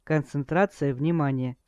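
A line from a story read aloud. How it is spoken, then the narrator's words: Calm. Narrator (Russian): спокойно произнес мастер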